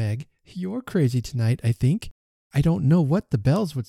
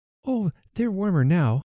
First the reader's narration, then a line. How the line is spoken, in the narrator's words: exclaimed the child